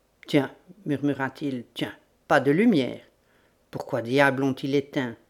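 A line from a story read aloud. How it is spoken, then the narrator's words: Low-voiced call. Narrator (French): à voix basse, il appela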